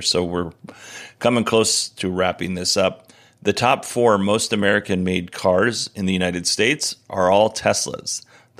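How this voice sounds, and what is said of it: Strained, hoarse voice. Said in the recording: “Ooh, I am losing my voice”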